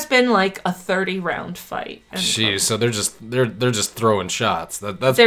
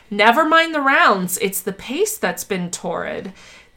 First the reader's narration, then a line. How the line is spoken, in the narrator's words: On the TV broadcast, Clancy exclaimed